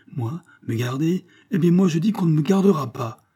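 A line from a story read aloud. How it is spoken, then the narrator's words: Furious struggling shout. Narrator (French): s'écria le jeune homme, livide de colère et se débattant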